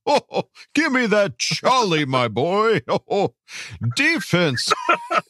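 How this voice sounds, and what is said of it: Santa Claus character voice. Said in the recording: “a mean Santa Claus impersonation”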